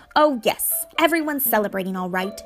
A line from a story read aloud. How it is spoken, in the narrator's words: she said impatiently